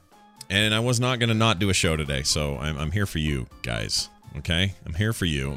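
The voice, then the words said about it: Sick, under-the-weather voice. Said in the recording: “As you can tell, I am under the weather. This is actually better than it was about an hour ago.”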